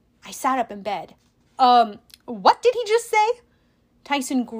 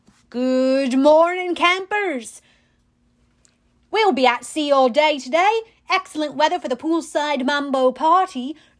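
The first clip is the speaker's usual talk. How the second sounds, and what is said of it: Overly cheerful Australian accent. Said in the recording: “some guy in an Australian accent who sounded way too happy”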